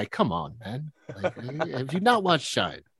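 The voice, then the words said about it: Imitates another person's voice. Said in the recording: “I don't even know if that's what his voice sounds like ... it's exactly what his voice sounds ... my Jeffrey Rush is on point”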